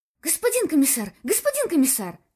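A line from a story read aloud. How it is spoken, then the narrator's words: Hurried. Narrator (Russian): начал торопливо сержант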